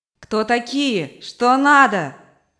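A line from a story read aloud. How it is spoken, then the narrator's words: Shouting. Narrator (Russian): кричала мать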